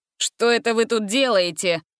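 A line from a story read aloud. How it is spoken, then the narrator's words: Indignant snort. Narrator (Russian): возмущенно фыркнул он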